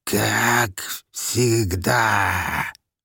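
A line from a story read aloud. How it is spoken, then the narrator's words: Hissed, strange accent. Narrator (Russian): со странным акцентом прошипела тварь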